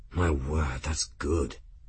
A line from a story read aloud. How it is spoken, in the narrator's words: Benedict breathed